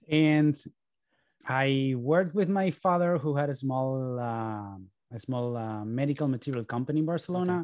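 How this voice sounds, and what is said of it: Spanish accent in English. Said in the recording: “this weird accent that you're trying to understand for the last 51 minutes comes from Spain”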